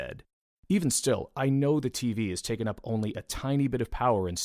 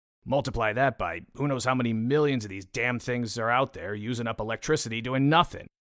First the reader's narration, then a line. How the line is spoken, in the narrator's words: I grumbled